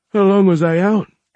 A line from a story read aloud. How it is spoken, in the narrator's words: Anna yawned